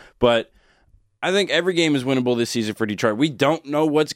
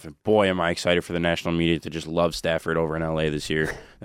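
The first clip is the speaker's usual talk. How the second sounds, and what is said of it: Sarcastic tone. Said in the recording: “That's very sarcastic if you can't tell it in my voice.”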